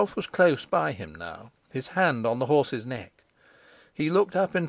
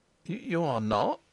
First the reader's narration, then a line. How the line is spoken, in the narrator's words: stuttered the bewildered fellow